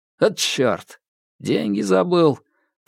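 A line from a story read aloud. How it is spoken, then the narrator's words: Grumbled, feigning confusion. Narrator (Russian): проворчал, изображая растерянность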